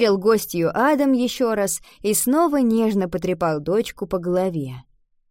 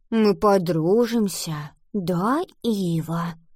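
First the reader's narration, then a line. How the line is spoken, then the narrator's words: Whisper. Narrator (Russian): прошептала она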